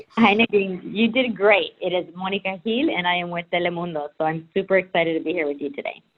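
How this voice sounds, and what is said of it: Spanish-accented English. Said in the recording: “Oh my gosh, I just love your accent. ... You'll be speaking Spanish by the end of this.”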